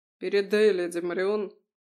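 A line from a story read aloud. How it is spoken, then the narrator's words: Muffled voice. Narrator (Russian): глухо заговорил Феодор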